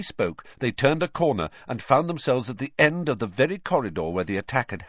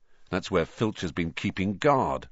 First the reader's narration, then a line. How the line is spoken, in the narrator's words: Ron muttered